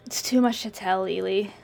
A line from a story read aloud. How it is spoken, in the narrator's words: sighed